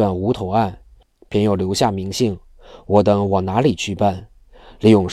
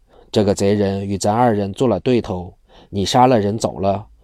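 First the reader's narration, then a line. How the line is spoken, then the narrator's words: Sighing heavily. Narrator (Chinese): 不住长吁短叹，说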